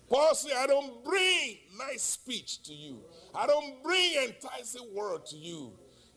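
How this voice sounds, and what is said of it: Heavy, hard-to-understand accent. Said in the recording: “Even my accent is horrible. People could hardly understand what I'm saying.”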